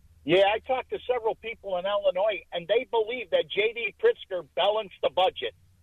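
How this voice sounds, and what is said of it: Regional Illinois-area accent. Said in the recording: “you and I could tell from the accent, you and I are from similar areas”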